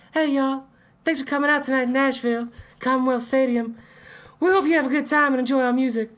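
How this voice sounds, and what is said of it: Falsetto 1960s boy band singer voice. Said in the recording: “just a falsetto from just like a 1960s all boy band, like the Temptations”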